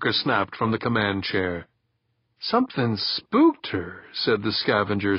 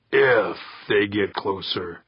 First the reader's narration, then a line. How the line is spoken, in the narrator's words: Kirk growled